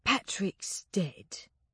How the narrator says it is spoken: he said gently

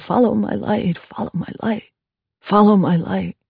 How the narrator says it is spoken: Adam lying in a hospital bed, his head bandaged, muttering

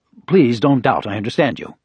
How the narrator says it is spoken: Ryu said

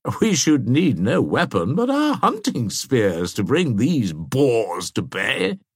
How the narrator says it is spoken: said Brassy, laughing

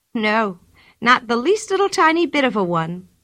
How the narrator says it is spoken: said Pippi happily

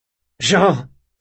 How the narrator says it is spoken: said Locke, more sharply

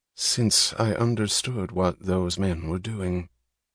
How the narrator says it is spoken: Francisco answered calmly

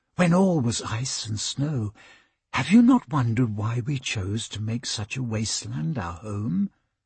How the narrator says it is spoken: the princess whispered

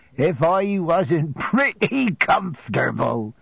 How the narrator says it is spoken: said Peggotty, laughing heartily

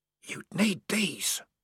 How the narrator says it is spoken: whispered the voice

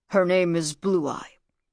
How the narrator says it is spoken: grunted Nekank

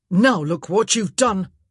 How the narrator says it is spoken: Antony snapped

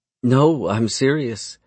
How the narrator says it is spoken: she says with a laugh

